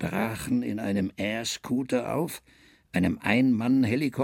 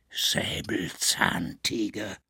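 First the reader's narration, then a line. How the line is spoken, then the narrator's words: Whispered behind hand. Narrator (German): Der Professor hielt die Hand an den Mund und flüsterte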